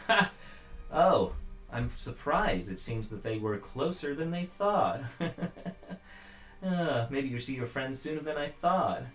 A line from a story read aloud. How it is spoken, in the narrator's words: the doppelganger, kind of laughs, goes